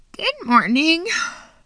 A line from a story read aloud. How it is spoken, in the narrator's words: said in a scratchy voice